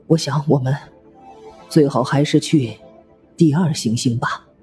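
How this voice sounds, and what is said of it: Low, tense voice. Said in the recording (Chinese): “用一种低沉而紧张的声音说”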